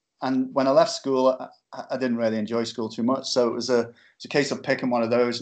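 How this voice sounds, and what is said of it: Liverpool accent. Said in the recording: “Where I come from, Liverpool, as you probably tell from my accent”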